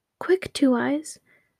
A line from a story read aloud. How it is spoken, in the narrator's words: cried the two sisters